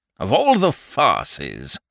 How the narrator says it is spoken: grumbled Lord Attenbury irritably

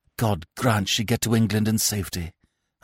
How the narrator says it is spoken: I whispered

